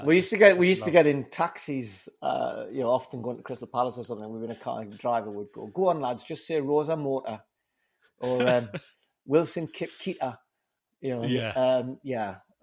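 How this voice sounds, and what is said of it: Geordie northeast English accent. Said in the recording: “his fabulous northeast tones, much like your own ... I inevitably felt my Geordie accent came out a little bit more strongly”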